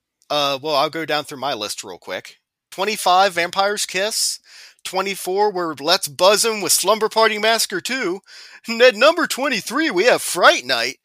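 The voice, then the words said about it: Cheesy morning radio DJ voice. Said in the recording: “my Z Morning Zoo radio voice”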